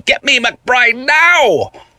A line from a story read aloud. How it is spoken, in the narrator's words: The person on the phone shouted at me